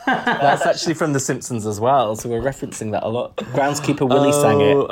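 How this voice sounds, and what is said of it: Usual voice. Nothing is said of it.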